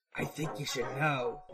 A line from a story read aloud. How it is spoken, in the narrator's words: he whispers